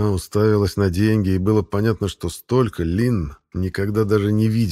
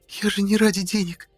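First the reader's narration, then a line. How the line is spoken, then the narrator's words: Timid babbling. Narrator (Russian): пролепетала она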